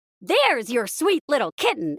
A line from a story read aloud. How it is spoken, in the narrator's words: exclaimed Mickey